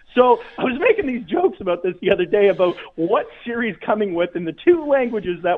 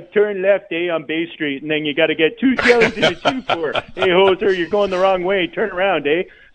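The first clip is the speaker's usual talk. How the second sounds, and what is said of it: Put-on Canadian accent. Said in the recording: “if you were given directions with a Canadian accent”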